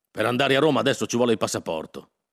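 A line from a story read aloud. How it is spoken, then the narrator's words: Shouted. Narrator (Italian): gridò Berardo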